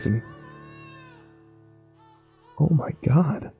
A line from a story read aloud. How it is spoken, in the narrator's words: I whispered